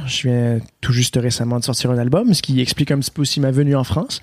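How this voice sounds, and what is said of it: Québécois French accent. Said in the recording (French): “un bel accent québécois ... j'ai un accent québécois”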